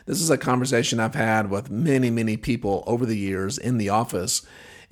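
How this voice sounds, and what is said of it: Affected, impaired voice. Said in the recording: “as you can hear, my voice is affected because of the surgery”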